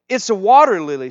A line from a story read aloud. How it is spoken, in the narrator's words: shouted the youngest daughter